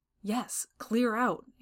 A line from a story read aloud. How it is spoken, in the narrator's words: he snarled over his shoulder